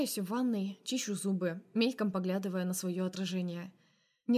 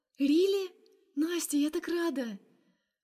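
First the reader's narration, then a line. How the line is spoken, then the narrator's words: Joyful laughter. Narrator (Russian): Она так радостно смеется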